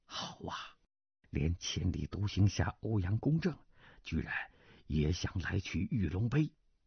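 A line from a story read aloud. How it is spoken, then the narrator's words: Old man, low voice. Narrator (Chinese): 邻桌那老者低声道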